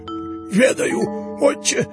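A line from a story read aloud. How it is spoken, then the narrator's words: Wheezed. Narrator (Russian): просипел Еропкин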